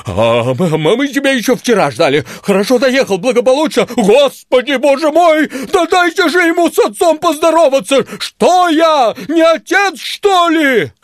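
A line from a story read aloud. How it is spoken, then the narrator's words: Deep bass roar, big dog. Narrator (Russian): Ревел басом милорд, огромный черный пес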